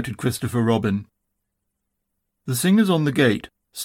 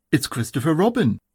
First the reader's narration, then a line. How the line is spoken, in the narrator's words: said Pooh eagerly